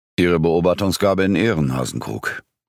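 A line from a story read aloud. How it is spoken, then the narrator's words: Growl. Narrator (German): knurrte Büttner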